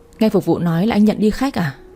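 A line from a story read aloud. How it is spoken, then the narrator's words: Smiling speech. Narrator (Vietnamese): Tôi mỉm cười nói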